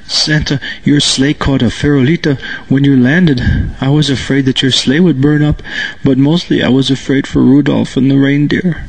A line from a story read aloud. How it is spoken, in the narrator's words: Through his sobs, he said